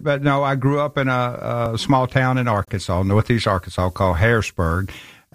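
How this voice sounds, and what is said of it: Tennessee Southern American accent. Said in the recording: “You're not from Scotland now, and people are going to love your accent ... I'm from Memphis, Tennessee”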